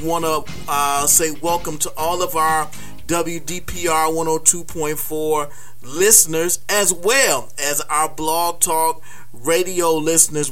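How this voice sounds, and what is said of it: Excited, thrilled voice. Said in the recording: “we are thrilled. We are excited. You can hear it in my voice.”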